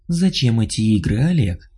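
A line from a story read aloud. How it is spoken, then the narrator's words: Purring, female. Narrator (Russian): промурлыкала она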